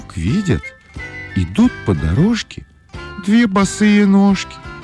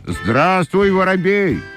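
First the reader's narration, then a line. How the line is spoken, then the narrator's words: Shouting in chorus. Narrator (Russian): закричали башмачки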